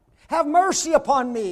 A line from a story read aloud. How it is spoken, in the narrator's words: cried out